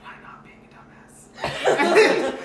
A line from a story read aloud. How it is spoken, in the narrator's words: He leans over to you and whispers